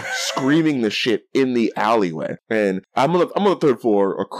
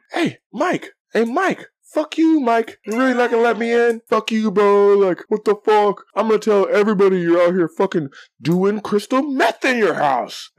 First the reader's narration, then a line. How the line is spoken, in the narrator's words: just screaming